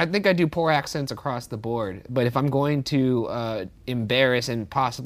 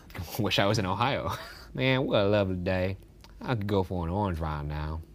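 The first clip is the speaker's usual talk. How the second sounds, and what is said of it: Cartoonish put-on Southern accent. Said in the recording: “I'll do a southern accent instead. ... Just a cartoon.”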